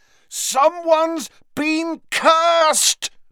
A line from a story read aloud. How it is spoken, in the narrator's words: bellowed Harry